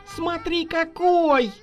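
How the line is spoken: Joyful yell. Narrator (Russian): радостно завопил Серёнька

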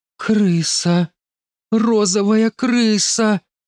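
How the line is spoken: Startled exclamation. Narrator (Russian): опешила Оля и воскликнула

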